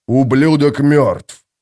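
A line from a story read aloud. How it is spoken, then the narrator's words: Growling. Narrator (Russian): прорычал Боден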